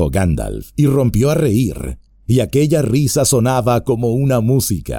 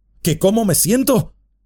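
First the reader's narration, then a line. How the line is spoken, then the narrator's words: Exclamation. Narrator (Spanish): exclamó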